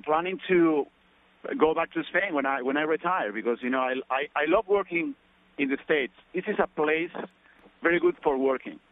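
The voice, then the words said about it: Spanish accent with Australian touches. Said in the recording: “your Spanish Australian accent”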